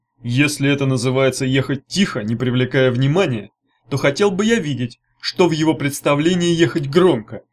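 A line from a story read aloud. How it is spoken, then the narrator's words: Angry. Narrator (Russian): сердито сказала Сёрх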